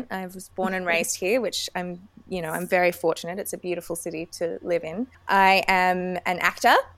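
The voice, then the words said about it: Australian accent. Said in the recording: “I am from Sydney, Australia. You can probably tell by the accent.”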